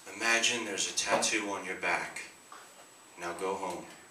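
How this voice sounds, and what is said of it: Mock hypnotist voice. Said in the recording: “Here's my impression of it. A hypnotist turned tattoo artist.”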